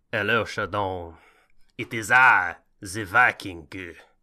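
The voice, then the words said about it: Put-on Viking accent. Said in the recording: “finding the Viking accent for our podcast”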